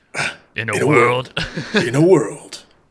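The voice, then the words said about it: Movie trailer narrator voice. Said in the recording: “in a movie voice”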